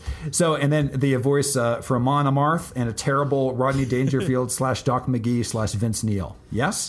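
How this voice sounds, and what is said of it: Hoarse, shredded voice. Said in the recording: “my voice is shredded”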